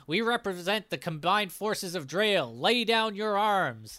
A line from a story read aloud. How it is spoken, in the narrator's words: And Connor shouts out